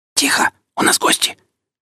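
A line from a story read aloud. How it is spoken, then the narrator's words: Hissing whisper. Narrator (Russian): раздался чей-то свистящий шепот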